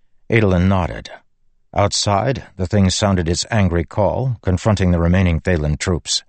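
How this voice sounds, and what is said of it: Usual voice. Nothing is said of it.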